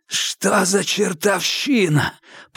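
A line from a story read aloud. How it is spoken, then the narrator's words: Hoarse rasp. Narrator (Russian): прохрипел капитан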